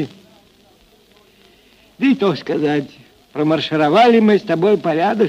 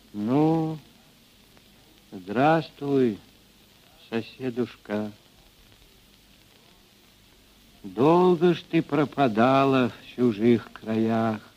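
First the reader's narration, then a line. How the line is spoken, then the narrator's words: Soft older woman. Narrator (Russian): Ильинична, мать Григория Мелехова, негромко сказала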